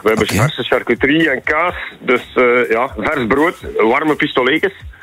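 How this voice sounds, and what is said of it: Regional accent with distinctive A sound. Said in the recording (Dutch): “jouw accent, dat is ook een beetje het mijne ... Ja, het is vooral die A, toch?”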